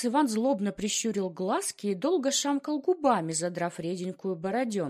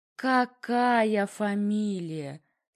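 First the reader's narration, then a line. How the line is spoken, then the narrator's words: Relishing drawl. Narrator (Russian): с наслаждением протянул отец Иван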